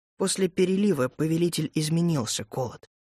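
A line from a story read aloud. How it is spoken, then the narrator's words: Quiet. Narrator (Russian): тихо ответил Ленс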